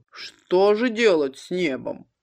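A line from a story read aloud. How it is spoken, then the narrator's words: Dull gloomy lazy bass. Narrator (Russian): Глухим басом, мрачно и лениво, он спросил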